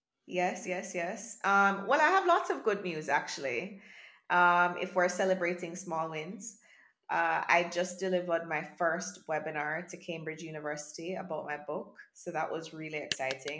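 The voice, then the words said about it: Sick, slightly rough voice. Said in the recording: “I am a little bit sick, so forgive my voice”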